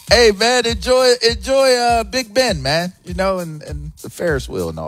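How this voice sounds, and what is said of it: Poorly done put-on accent. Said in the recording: “That is such a bad accent. It's offensive.”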